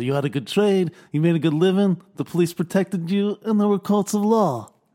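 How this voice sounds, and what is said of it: Don Corleone impression. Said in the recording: “your Don Corleone impression ... I think it's improved”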